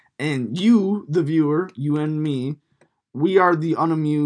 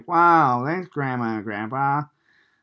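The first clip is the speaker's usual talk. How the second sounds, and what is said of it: Poor impression of a child. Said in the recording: “That's a terrible impersonation.”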